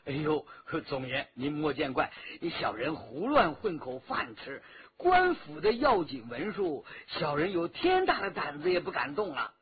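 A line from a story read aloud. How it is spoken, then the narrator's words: Obsequious laughing. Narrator (Chinese): 那矮子直陪笑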